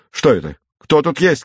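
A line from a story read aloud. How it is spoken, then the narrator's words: Shouting. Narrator (Russian): крикнул он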